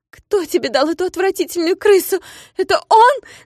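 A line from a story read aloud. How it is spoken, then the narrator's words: Shouted. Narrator (Russian): закричала она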